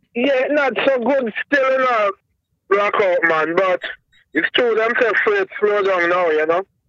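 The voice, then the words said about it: Thick Jamaican accent. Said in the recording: “you got a thick ass Jamaican accent ... I'm digging your accent”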